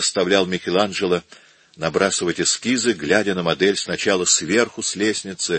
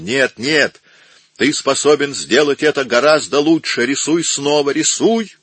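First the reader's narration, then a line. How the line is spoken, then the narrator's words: Nervous shouting. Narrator (Russian): Нервно переступая с одной ноги на другую, кричал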